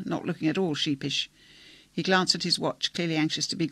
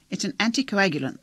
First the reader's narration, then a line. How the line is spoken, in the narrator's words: the doctor said impatiently